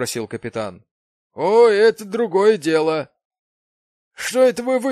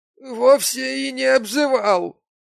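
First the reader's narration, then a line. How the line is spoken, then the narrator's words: Tearful whimper. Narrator (Russian): прохныкал Гемстед, утирая кровь и слезы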